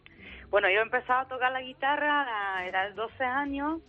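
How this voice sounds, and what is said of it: Andalusian Spanish accent. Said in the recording (Spanish): “qué acento tan andaluz tienes”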